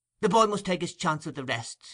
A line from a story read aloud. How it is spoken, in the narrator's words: interrupted Nancy hastily